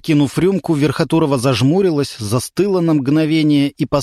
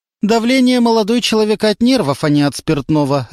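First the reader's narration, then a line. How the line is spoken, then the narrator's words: Sharp reply. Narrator (Russian): резко ответила Любовь Николаевна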